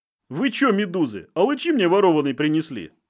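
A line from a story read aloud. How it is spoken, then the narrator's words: Laughing. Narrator (Russian): смеялся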